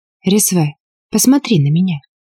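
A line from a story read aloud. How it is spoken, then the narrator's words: Quiet request. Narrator (Russian): тихо попросила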